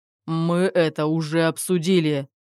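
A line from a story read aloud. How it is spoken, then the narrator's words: Interrupting growl. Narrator (Russian): недослушав, прорычал Руслан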